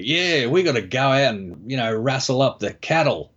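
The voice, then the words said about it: Hugh Jackman's put-on Australian accent. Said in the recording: “Hugh Jackman, like, put on an Australian accent”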